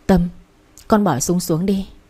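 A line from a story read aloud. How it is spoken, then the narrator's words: Trembling voices in unison. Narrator (Vietnamese): Mọi người đồng loạt run run bảo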